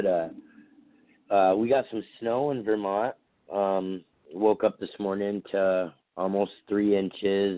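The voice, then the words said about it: Hoarse voice from a cold. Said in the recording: “down a little bit of a cold. ... My voice is a little hoarse,”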